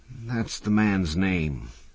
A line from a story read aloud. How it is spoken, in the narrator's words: said Doc wearily